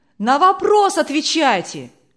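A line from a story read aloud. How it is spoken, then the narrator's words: Shouts from audience. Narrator (Russian): кричали из публики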